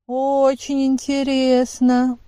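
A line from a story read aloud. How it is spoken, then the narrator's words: Contemptuous young woman drawling. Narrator (Russian): протянул молодой и презрительный женский голос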